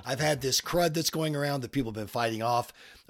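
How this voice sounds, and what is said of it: Sick-sounding, rough voice. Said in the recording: “my voice sounds terrible ... Feel fine, but I sound terrible”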